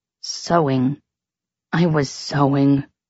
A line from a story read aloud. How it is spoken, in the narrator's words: he whispered miserably